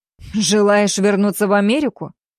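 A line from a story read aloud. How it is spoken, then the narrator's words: Wry grunt. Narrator (Russian): хмыкнул Уильямс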